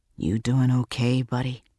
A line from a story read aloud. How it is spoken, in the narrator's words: I asked him in a low voice